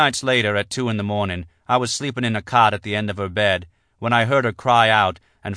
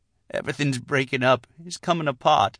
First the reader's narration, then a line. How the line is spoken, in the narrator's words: she whispered desperately